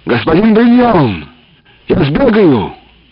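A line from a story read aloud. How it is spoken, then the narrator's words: Shouted. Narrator (Russian): крикнул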